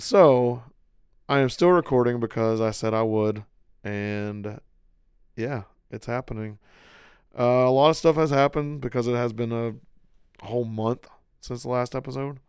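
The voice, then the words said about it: Hoarse, strained voice. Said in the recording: “I'm kind of hoarse right now... I may just still be hoarse... my voice is still shot”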